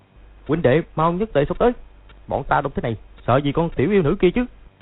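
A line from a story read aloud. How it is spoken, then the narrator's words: Commanding shout. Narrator (Vietnamese): Lộc Thanh Đốc quát lên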